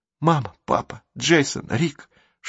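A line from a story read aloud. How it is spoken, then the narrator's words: Prayer-like whisper. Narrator (Russian): шептала, словно молитву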